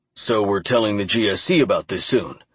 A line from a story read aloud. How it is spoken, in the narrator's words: Clark said